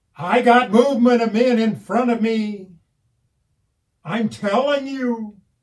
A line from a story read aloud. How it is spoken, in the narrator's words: says more loudly, more urgently